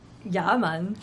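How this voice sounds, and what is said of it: Put-on Jamaican accent. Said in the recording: “does a great Angel de la Plata. Jamaican accent.”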